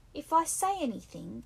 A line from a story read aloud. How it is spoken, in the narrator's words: cried Piggy with bitter realism